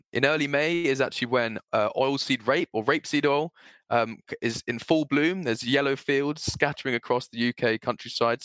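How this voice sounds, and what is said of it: Relaxed, calm voice. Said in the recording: “I feel very much more relaxed, which you can probably hear in my voice ... you sound very chilled, very zen”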